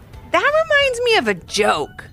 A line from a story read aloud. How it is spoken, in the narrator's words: Levi said with a giggle